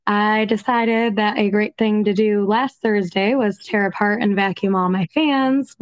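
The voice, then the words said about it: Congested, funky-sounding voice. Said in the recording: “my voice sounds funky ... the dust killed my sinuses”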